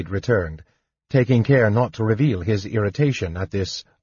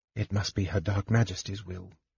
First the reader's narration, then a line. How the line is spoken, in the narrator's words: the Night Lord muttered